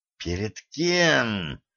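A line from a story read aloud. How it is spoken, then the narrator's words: Growling. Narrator (Russian): прорычала Катран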